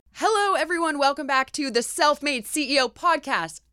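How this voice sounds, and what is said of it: Yelling, loud energetic delivery. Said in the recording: “I don't know why I'm yelling”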